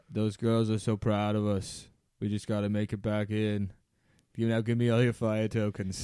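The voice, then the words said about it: Put-on Boston accent. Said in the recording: “Can you do in your Boston accent”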